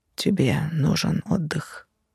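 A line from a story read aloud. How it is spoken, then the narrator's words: Muffled voice. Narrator (Russian): глухо произнес он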